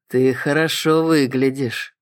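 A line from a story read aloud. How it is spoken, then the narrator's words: Purring. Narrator (Russian): промурлыкал он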